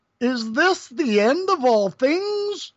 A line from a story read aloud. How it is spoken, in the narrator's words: the Supreme Being was astonished and exclaimed